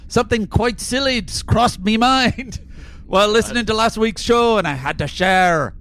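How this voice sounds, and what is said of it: Put-on Scottish accent. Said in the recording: “really leaned on it. I think I really nailed it ... I walk on the streets of Edinburgh. Nobody can tell the difference with that accent.”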